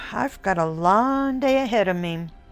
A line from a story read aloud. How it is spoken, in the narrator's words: I said in a half groan